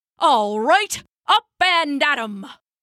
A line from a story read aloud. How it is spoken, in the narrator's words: barked Old Pap, shouting